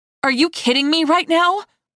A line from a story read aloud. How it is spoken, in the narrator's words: I blurted